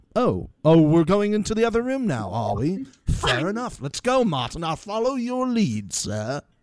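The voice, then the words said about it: Put-on British accent. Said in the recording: “I like your accent. ... British. ... I would just be doing his accent.”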